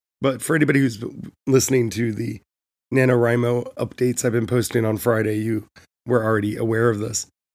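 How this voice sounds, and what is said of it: Weak, hoarse voice. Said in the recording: “my voice is still gone... my voice went away.”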